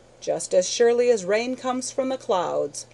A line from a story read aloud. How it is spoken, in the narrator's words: cried Hall, with all his old impatience